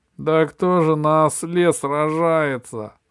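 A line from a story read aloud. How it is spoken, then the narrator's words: King roaring with laughter. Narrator (Russian): захохотал король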